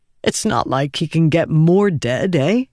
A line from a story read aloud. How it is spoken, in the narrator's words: said, then chuckled awkwardly